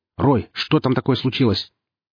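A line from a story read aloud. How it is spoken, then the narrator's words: Startled, sharp, into headset. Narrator (Russian): вздрогнув, резко спросил в гарнитуру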